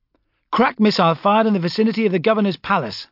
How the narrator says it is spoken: I snapped

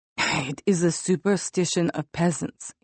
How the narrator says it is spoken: he said in a raspy growl

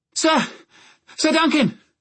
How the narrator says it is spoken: Egg ... panting

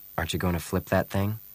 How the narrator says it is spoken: He asked softly

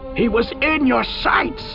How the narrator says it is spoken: Keitar yelled

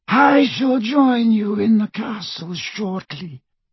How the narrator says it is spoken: he said in his high, cold voice

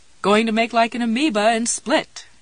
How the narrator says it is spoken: Jessie agreed, and laughed some more

